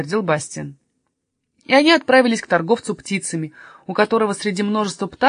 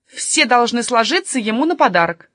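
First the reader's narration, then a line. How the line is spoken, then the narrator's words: Stern. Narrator (Russian): строго сказала тетушка София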